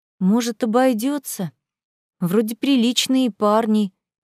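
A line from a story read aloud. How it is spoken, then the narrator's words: Unsure mumble. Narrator (Russian): неуверенно промямлила Аля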